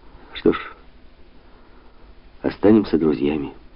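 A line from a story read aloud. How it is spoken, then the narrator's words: Icy, turned away. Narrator (Russian): ледяным тоном сказал Лело, по-прежнему стоя к нему спиной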